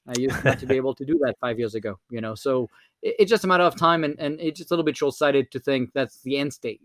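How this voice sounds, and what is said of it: French-accented English. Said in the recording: “my French accent”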